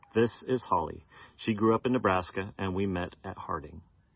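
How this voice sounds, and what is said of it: American accent. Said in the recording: “I got my nice American accent from my parents”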